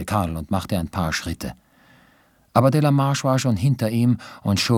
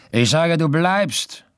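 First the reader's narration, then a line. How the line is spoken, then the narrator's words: Call. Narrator (German): rief er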